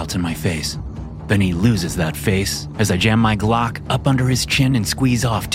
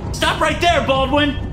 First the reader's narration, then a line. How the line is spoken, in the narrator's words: Lohan shouts